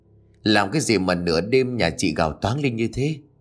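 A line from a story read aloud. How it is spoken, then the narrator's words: Deep gruff voice. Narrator (Vietnamese): Người đàn ông tên là Sáu làm nghề cửu vạn cất giọng ồm ồm rồi hỏi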